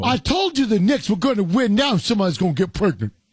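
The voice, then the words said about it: Tracy Morgan impression. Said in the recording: “his Tracy Morgan impression”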